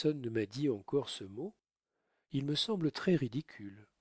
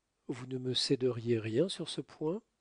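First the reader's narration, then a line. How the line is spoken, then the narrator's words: Plain. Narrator (French): dit-il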